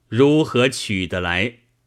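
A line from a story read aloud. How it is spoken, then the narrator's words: Plain. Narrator (Chinese): 道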